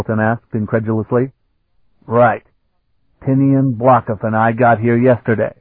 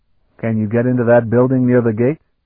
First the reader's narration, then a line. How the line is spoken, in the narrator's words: Sparhawk asked quickly